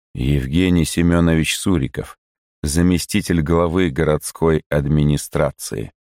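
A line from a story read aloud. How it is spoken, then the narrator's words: Calm. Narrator (Russian): говорит он спокойно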